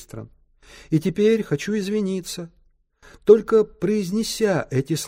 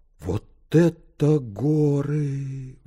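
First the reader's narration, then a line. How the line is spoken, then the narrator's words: Breathless exhale. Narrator (Russian): выдохнул он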